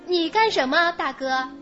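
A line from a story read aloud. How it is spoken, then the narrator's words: Plain. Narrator (Chinese): 农妇问他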